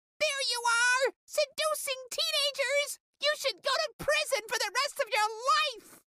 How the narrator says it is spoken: screamed

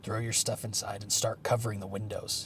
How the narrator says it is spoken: growled

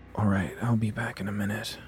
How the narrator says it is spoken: I grumbled

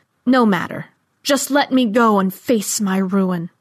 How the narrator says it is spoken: he howled, and then said

